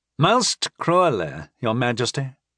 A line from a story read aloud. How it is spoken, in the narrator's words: Anvaram agreed, his voice thick with exaggerated anguish